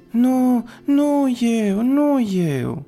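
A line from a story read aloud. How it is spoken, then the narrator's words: Crying, whimpering shout. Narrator (Romanian): strigă Pinocchio plângărind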